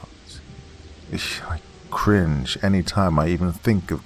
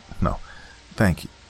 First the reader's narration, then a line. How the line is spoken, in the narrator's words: For a moment I was lost for words, but politely muttered